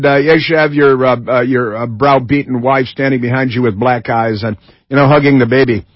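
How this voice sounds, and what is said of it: Usual voice. Nothing is said of it.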